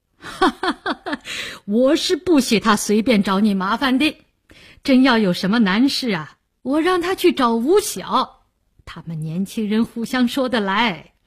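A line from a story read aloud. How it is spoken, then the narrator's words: Laughing. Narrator (Chinese): 梅启良笑道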